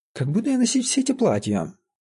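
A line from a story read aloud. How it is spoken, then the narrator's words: Exclaimed. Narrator (Russian): воскликнула Жоржа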